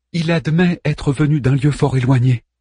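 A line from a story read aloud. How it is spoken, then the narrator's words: Plain. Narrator (French): dit Hélène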